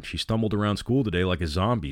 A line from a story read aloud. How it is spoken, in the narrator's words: said Scotty